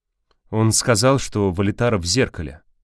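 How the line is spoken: Weary explanation. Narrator (Russian): объяснил Константин устало

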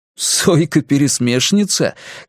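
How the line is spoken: Burst of laughter. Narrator (Russian): Кориолан расхохотался

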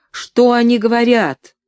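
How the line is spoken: Group shouting from above. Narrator (Russian): Несколько человек хором закричали сверху

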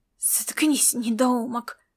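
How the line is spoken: Hiss. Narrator (Russian): прошипел Рид Арперев

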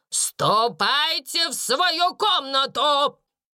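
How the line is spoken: Breathless furious shout. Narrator (Russian): крикнула, задыхаясь от гнева, мисс Минчин

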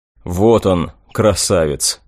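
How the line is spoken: Muttered aloud. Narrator (Russian): пробормотал вслух

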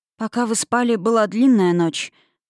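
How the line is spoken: Sorrowful sigh. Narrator (Russian): ответила Юлия, горестно вздохнув

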